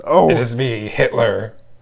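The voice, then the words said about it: Pirate-like character voice. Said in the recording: “Is that how Hitler talks? I thought he would at least have a German accent... you sound more like a pirate.”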